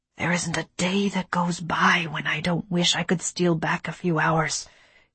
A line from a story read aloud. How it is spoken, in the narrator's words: he whispered